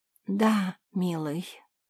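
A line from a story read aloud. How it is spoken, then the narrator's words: Weak-voiced mother. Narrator (Russian): слабым голосом ответила ему мать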